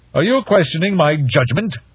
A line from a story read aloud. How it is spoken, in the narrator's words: Shuang Yu snapped